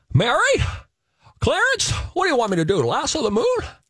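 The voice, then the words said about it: Imitates another person's voice. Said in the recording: “my Jimmy Stewart impression”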